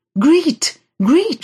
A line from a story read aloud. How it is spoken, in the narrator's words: cried